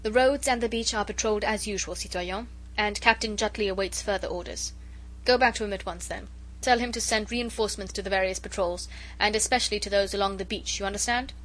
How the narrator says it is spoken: Chauvelin spoke curtly and to the point

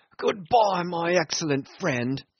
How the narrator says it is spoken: Brown said jeeringly

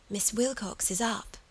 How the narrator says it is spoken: the child whispered, and then became unintelligible

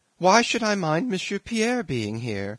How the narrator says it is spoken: exclaimed the little princess suddenly, tearful grimace

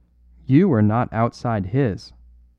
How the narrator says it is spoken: answered the smith

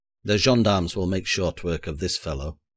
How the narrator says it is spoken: he growled

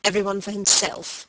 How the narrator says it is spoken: he repeated, which rang grimly enough among the ruins of Oniton

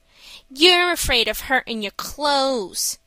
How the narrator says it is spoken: said Mickey with a sneer

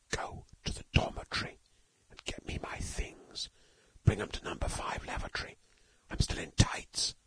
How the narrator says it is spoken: hissed Stalky

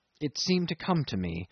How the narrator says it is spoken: he murmured

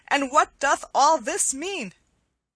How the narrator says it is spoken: cried Will Stutely

